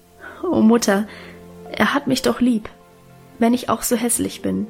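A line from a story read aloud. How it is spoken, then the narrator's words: Stammering, laughing and crying. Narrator (German): Gustl ... stammelte lachend und weinend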